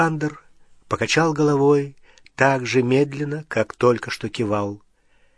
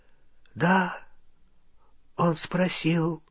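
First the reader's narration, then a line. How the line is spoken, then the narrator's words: Whisper. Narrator (Russian): прошептал Оливандер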